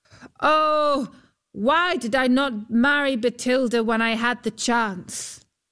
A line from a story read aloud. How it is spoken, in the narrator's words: called out